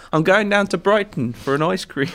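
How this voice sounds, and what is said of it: Put-on accent. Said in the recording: “What accent was that?”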